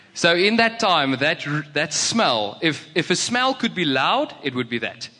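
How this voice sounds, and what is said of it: Afrikaans accent. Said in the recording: “I'm Afrikaans, if you can hear by my accent.”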